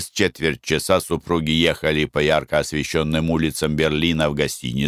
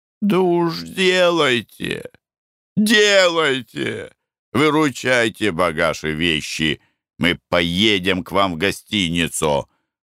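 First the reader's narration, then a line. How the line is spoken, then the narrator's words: Exclaiming. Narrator (Russian): воскликнул Николай Иванович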